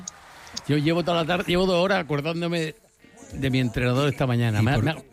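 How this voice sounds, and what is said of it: Andalusian Spanish accent. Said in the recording (Spanish): “¿Por qué hablas en acento andaluz? ... me la pega esta muchacha.”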